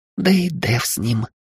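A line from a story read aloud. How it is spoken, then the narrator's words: Conspiratorial whisper. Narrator (Russian): заговорщически прошептала Хильда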